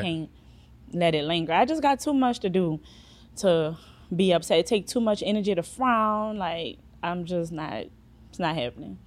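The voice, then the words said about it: Thick New Orleans accent. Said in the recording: “That accent is ... Thick. New Orleans”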